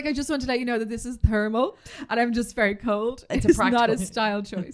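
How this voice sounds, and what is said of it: Imitates another person's voice. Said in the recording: “you do the voice? ... Inspired by our good friend Elizabeth Holmes”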